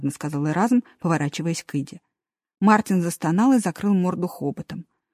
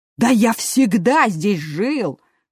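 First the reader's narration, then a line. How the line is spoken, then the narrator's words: Indignant. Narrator (Russian): возмущенно сказал мертвый хомячок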